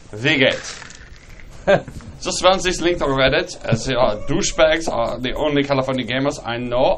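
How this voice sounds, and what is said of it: Put-on German accent. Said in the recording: “somebody with a German accent ... German, so wild with the accent”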